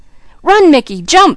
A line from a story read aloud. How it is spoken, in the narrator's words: screamed Junior